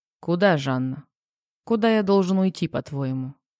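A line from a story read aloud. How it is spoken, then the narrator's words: Calm, mockingly condescending. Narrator (Russian): Спокойно спросил Макс, явственно прозвучала та самая нотка насмешливой снисходительности в его голосе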